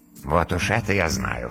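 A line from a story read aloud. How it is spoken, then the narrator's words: Dragon's skeptical grunt. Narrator (Russian): хмыкнул дракон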